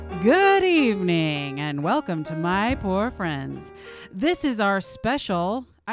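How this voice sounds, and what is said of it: Radio announcer voice. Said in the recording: “my radio announcer voice”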